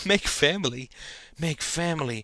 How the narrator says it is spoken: panted Janine in a parody of sexual desire

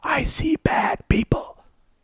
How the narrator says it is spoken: mentally whispering

